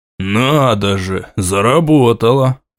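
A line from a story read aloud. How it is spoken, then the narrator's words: Satisfied snort. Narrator (Russian): Удовлетворенно хмыкнул князь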